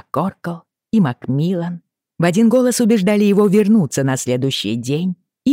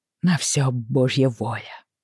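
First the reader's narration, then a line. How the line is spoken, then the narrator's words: Sigh. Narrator (Russian): вздохнул МакКоркл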